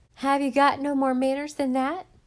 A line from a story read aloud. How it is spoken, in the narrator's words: yelled a girl